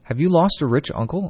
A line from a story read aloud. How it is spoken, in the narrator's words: I asked